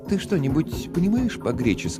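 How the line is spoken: Fairly calm question. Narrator (Russian): достаточно спокойно спросила Мадж

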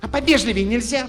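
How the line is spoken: Snapping girl. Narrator (Russian): Огрызнулась девчонка

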